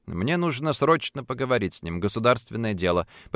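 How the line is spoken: Forced calm. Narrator (Russian): попытался объяснить я, стараясь держаться спокойно

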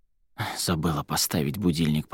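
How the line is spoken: Muttered grumbling. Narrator (Russian): проворчала она себе под нос

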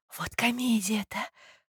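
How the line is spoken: Whisper to neighbor. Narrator (Russian): шепнула Филисата Михайловна своей соседке

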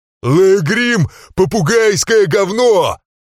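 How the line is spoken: Yelling. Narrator (Russian): заорал

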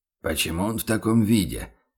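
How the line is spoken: Puzzled mutter. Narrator (Russian): непонимающе пробормотал фон Зайденберг

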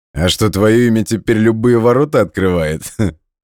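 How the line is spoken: Laughing. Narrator (Russian): хохотнул Игорь

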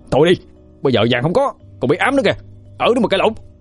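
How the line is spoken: Shouting. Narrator (Vietnamese): Quân cũng hét lên

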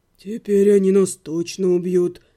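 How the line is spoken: Gloomy. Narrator (Russian): мрачно сказал Отто

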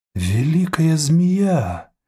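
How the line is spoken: Exclaiming. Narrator (Russian): воскликнул Чадма Сонте Тазот

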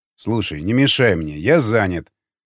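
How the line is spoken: Angry mumble. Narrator (Russian): зло пробубнил Яхонтов

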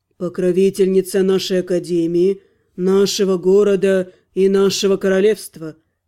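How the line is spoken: Solemn declaration. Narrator (Russian): произнес торжественно Миротриэль

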